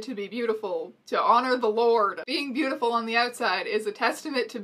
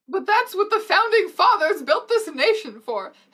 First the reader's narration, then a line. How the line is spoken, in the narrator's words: Harry cried indignantly